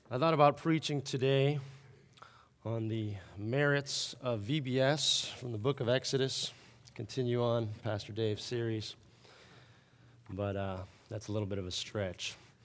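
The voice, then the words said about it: Sore, strained voice. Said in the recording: “apologize for my voice ... a little bit of a sore throat, and apparently it's still with me ... hopefully my voice will not be a distraction”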